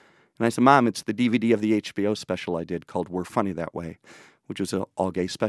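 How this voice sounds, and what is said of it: Usual voice. Nothing is said of it.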